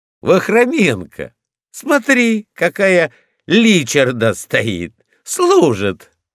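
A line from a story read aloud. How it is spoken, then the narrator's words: Laughing shout. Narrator (Russian): Пожарный засмеялся и крикнул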